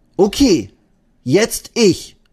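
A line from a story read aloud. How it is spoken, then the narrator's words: Call out. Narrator (German): ruft Eddie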